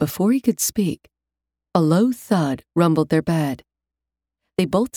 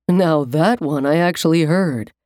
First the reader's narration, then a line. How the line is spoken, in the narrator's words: Tom said, laughing